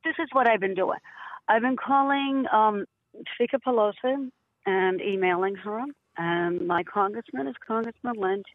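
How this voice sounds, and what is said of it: Raspy, hoarse voice. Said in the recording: “I sound a little raspy, trying to get over a cold. I have laryngitis”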